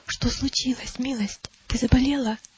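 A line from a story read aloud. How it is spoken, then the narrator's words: Whisper. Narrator (Russian): Христиана шепнула ей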